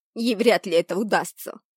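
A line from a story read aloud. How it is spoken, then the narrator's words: Fervent shout. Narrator (Russian): С жаром крикнула я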